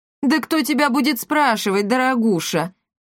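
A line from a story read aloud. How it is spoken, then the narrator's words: Scoffing father. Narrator (Russian): хмыкнул ее отец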